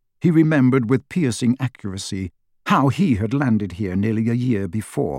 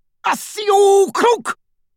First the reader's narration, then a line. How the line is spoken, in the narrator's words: roared one of the Death Eaters